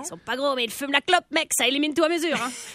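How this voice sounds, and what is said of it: Put-on accent. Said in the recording (French): “je me charme moi-même avec cet accent.”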